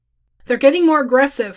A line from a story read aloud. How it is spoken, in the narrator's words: Furcate called out